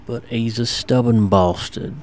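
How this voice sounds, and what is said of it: Impression of Bricktop from Snatch. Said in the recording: “What voice was that? Who were you doing an impression of there? ... That's from Snatch, I believe. ... Bricktop.”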